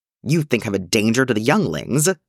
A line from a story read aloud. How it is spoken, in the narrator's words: New snapped, voice cold